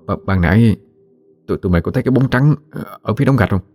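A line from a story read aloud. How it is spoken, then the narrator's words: Stammering. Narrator (Vietnamese): Giang lắp bắp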